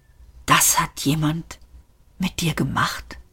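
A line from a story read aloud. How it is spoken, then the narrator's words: Whispered. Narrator (German): flüsterte Ford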